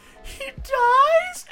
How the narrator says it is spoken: is sobbing, and he goes

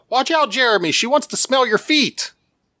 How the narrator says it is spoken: Someone to their left called out

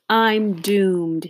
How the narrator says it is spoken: moaned

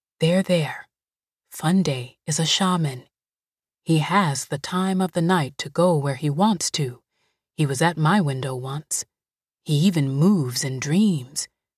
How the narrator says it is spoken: she said in a calm voice

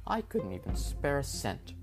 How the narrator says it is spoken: she scoffed

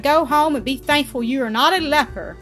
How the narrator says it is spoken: he cried

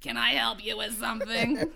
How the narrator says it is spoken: She said in an impatient, raspy voice

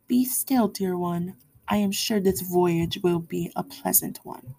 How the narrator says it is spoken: Keala said gently

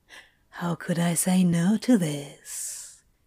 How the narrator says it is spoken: he whispered

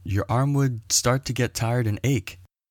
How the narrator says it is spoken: Someone from the crowd shouted

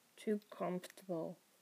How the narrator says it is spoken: Crowley mumbled

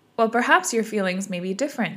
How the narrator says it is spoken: said Alice

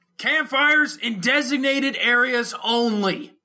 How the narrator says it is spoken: the guy's companion shouted

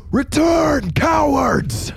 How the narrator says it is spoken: Nerum shout

